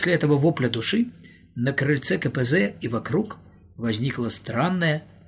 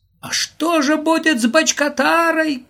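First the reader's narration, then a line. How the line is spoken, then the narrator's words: Shouted. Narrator (Russian): крикнул Володя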